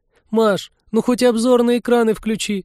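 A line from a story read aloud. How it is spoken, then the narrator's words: Pleading. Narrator (Russian): взмолилась Полина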